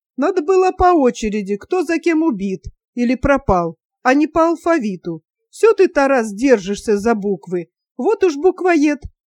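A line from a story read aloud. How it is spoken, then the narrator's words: Laughing. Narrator (Russian): Настя засмеялась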